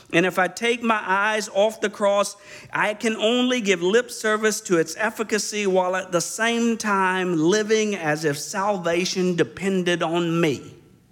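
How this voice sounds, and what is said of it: Imitating Alistair Begg's accent. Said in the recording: “You guys tired of the accent? ... Alistair Begg”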